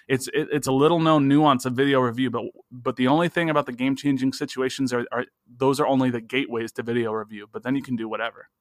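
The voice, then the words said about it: Very fast excited speech. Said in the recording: “you're talking so fast. It sounds like you're on 1.5 speed right now.”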